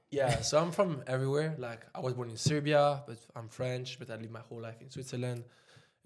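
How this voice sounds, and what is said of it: Foreign accent. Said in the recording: “the accent kind of gives it away”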